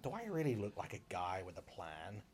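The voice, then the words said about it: Joker impression. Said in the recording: “great joke impression. That was brilliant.”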